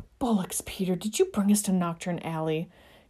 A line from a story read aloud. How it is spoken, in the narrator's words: James groaned